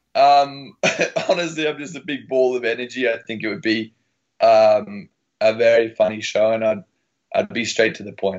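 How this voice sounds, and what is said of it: Australian accent. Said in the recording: “Australian accent is awesome”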